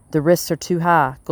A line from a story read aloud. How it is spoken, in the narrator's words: Gold Buttons said in a shaky voice